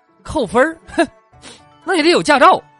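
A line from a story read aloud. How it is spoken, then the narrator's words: Calm, sneering. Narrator (Chinese): 司机淡定的冷笑说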